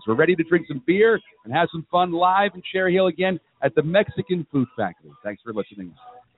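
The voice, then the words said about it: Smooth announcer radio voice. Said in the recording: “your amazing radio voice”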